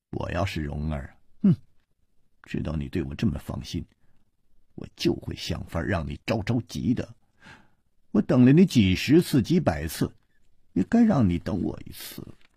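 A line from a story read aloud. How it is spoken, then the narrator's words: Sneering. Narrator (Chinese): 他撇了撇嘴冷笑着说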